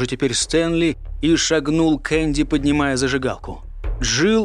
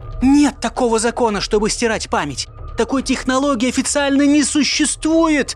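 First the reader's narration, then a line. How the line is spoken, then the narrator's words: Yelling back. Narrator (Russian): вопила Джилл в ответ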